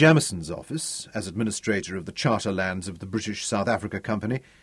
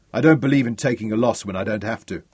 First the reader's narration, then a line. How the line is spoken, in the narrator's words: Ralph laughed